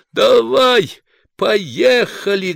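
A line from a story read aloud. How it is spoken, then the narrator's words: Booming, then laughing. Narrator (Russian): гулко сказал Патрик и захохотал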